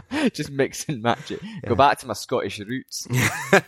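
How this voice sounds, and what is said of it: Put-on Scottish accent. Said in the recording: “You should do it in a Scottish accent next time ... your Scottish accent is on point”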